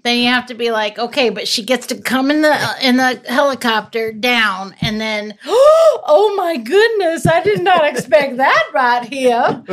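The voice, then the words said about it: Put-on Southern accent. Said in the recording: “You kept the southern accent.”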